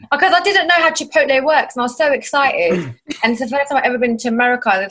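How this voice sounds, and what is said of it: British accent. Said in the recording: “This is why American guys always like us British girls... guys love your guys' accent”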